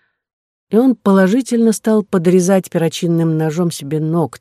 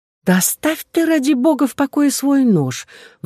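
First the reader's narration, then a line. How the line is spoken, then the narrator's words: Silent exasperated plea. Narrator (Russian): взмолилась она про себя, совершенно теряя терпение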